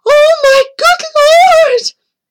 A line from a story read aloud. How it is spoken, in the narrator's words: Amy cried out